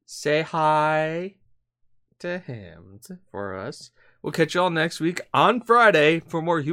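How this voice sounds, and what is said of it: Usual voice. Nothing is said of it.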